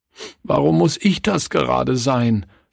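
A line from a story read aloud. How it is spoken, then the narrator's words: Sobbing. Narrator (German): schluchzte Klaus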